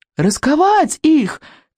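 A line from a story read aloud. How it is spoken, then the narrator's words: Shouted. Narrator (Russian): крикнул Икинг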